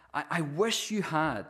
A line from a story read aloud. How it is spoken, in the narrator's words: she exclaimed